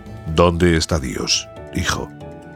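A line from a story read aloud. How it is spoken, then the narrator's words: Deep grave man's voice. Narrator (Spanish): El cura, un hombre enorme con una voz muy profunda, le preguntó gravemente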